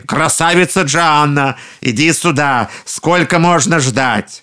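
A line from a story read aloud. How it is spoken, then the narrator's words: Shouting cannibals. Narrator (Russian): людоеды опять закричали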